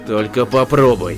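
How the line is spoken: Angry. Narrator (Russian): зло сказал Рэй

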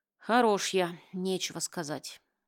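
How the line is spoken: Sighing, commissioner. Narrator (Russian): вздохнул комиссар

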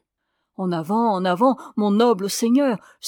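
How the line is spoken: Prompt exclamation. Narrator (French): s'écria aussitôt le cavalier de gauche

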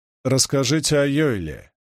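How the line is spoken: Commanding tone. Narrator (Russian): сказал Гуга непререкаемым тоном

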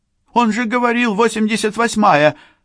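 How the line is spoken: Exclamation. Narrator (Russian): воскликнула Сакс

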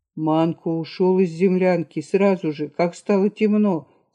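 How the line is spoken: Plain. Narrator (Russian): сказал Кирс

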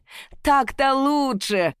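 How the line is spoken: Laughing crowd. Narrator (Russian): расхохотались в толпе

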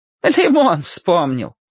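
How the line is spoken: Said, then laughing. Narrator (Russian): сказала она и засмеялась

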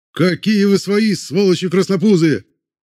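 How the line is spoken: Distant shout. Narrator (Russian): Прокричали в ответ из ближайшей палатки

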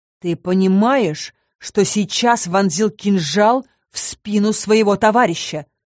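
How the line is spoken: Growled. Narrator (Russian): рыкнул Сальен

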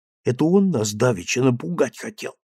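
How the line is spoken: Whispered. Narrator (Russian): прошептал Степка

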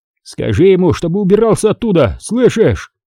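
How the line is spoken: Frantic yelling over radio. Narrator (Russian): орал в рацию Федор, мечась в тесной рубке машиниста и не зная, как помочь жене

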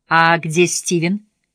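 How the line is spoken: Plain. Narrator (Russian): спросила она

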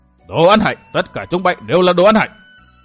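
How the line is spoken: Furious thunderous roar. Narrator (Vietnamese): Tây Môn Lập Thiên tức tối điên cuồng quát vang như sấm

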